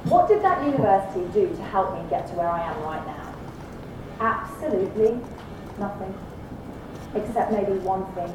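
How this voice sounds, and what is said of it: British accent. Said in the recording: “it was an old red brick university in the UK, you can tell from my accent.”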